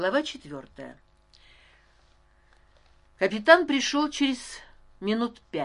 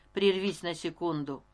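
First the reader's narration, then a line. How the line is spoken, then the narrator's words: Very calm. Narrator (Russian): очень спокойно произнес Стась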